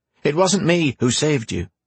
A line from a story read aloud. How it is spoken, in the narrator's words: Anise said quickly